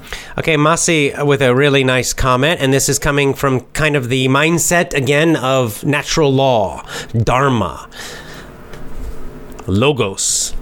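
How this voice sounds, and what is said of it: Standard American accent. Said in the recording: “I have a normal American accent, standard American accent.”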